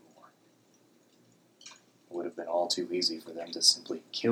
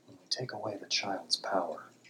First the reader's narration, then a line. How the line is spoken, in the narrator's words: I whispered to Igneous